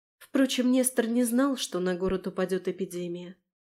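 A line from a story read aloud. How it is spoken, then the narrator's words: Young woman's sigh. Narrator (Russian): вздохнула молодая герцогиня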